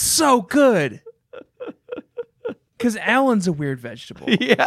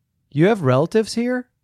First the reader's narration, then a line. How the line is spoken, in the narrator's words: said Christy